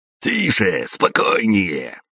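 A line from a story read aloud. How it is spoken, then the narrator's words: Sharp barked command. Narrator (Russian): рявкнул один из всадников на динозаврах, когда его питомец начал горцевать и пялиться в мою сторону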